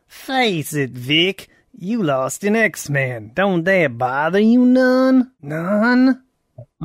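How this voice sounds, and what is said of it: Put-on southern character voice. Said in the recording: “You gotta merge it with the southern accent. ... Well, that's good.”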